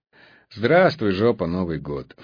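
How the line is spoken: Snorting. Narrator (Russian): фыркнул Мунлайт

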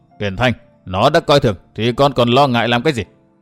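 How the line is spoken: Cold scornful laugh. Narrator (Vietnamese): Hận Thiên cười nhạt

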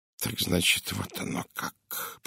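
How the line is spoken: Muttered. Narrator (Russian): пробормотал он

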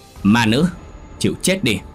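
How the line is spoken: Thunderous shout. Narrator (Vietnamese): tiếng hét như sấm của ông thầy

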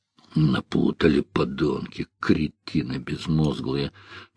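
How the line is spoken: Grumbling. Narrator (Russian): проворчал киллер

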